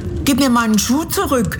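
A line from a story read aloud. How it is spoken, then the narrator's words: Calling out. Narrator (German): rief Dorothy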